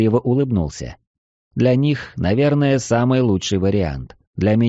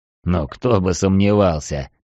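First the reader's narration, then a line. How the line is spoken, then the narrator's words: Snorting. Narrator (Russian): хмыкнул гробовщик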